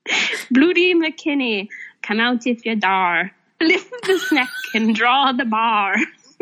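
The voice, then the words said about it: Put-on Scottish accent. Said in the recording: “here's my Scottish accent”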